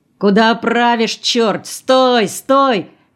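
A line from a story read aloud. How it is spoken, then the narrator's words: Shouting. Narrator (Russian): кричал он бульдозеристу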